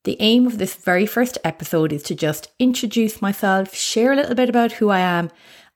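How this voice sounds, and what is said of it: Irish accent. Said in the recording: “you can probably guess my accent that I'm Irish”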